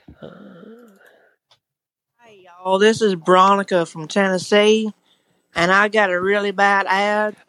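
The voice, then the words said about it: Southern US Tennessee accent. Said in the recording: “I think that's actually her accent ... She's in Tennessee. ... Sounds like my neighbor.”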